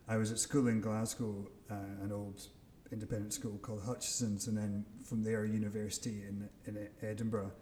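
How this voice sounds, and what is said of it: Scottish accent. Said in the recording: “you probably tell by the accent, from Scotland”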